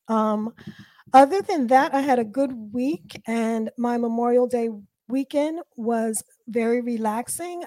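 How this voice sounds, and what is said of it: Sick, congested-sounding voice. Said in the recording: “As you can hear from my voice, I'm getting over a really bad cold.”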